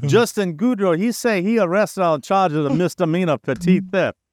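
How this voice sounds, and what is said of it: Put-on Cajun accent. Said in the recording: “now I just have to do my Cajun accent.”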